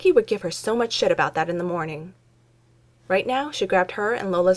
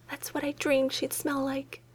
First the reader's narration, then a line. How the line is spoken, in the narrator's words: whispered